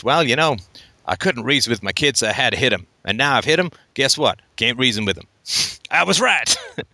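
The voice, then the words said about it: Put-on Southern accent. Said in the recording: “every bad parent has a bad Southern accent”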